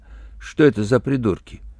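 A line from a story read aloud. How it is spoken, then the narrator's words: Waitress, calm question. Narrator (Russian): официантка спросила спокойно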